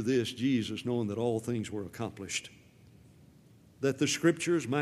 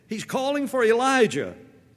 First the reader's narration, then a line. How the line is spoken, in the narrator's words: Some of those who stood by mockingly said